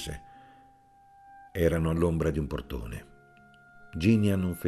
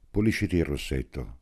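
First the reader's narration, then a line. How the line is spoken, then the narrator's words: Calm voice. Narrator (Italian): disse Amelia con una voce tranquilla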